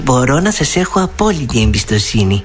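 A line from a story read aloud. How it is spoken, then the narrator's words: Sugary sweet. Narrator (Greek): είπε η Δεσποινής Λιλή και πέταξε 1,5 κιλό σωρόπι στο χαμογελό της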